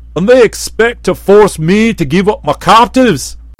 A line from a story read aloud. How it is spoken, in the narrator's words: asked the Red One, laughing with a noise like the roar of a waterfall